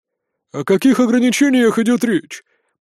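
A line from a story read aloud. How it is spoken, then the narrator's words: Grumbling. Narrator (Russian): проворчал самый жирный из старейшин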